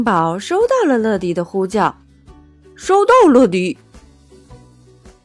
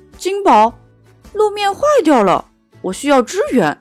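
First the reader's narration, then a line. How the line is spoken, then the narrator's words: Radio call. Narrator (Chinese): 乐迪呼叫总部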